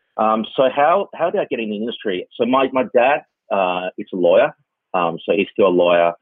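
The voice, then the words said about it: Australian accent. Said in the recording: “as you can tell from my accent, I actually grew up in Australia.”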